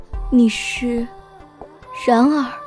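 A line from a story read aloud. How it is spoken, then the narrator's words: Soft, trembling. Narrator (Chinese): 他终于开口，声音轻柔却颤抖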